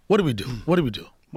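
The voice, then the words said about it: Imitates another person's voice. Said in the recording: “do an impression of me”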